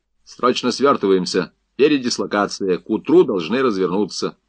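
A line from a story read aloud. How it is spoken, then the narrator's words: Commanding tone. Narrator (Russian): приказным тоном, сказал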